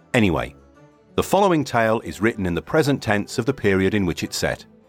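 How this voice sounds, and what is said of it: Irish accent. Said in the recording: “the Irish accent ... even though it really is shocking”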